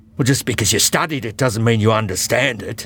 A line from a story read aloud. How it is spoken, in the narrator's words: growled the huge man